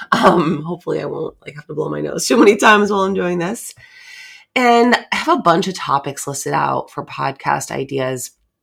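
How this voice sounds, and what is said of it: Slightly weird, congested voice. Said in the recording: “getting over the last part of a cold ... my voice sounds a little weird”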